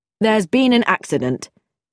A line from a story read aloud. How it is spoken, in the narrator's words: said George curtly